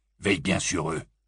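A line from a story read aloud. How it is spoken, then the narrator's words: Gruff voice. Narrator (French): lança Abelfort d'une voix bourrue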